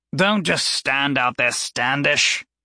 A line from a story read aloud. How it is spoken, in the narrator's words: Lucian bellowed